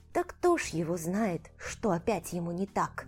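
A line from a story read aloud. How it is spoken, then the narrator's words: Maid's whispered reply. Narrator (Russian): Шепотом отвечала мне служанка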